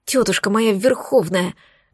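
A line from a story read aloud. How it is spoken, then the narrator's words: Inner groan. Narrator (Russian): застонала мысленно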